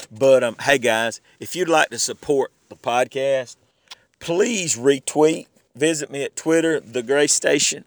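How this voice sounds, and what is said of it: Southern accent, voice affected by allergies. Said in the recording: “my voice sounding like this ... how Southern I sound ... My accent just comes all out whenever I'm not feeling up to ... It's just my allergies”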